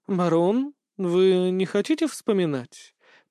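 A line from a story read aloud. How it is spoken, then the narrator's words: Knowing tone. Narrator (Russian): понимающим тоном произнесла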